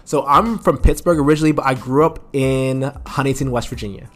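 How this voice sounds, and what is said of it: Northern American accent. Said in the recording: “I can hear your accent. You have a northern accent.”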